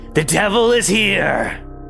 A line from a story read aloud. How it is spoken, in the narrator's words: yelling